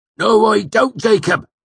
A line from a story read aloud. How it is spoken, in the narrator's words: Cobb snapped